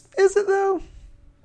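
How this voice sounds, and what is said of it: High-pitched voice. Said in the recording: “I'm using high voice.”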